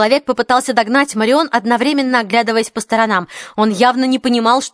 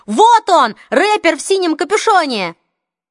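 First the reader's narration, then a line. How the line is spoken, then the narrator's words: Shouting. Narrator (Russian): Хлоя, закричала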